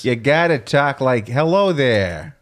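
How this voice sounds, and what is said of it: Put-on New York gangster accent. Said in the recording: “Now that's gangster. That's like New York.”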